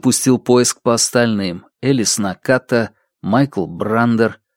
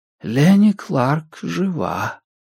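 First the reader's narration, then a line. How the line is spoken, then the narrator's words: Whisper in the ear. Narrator (Russian): прошептал голос в ухе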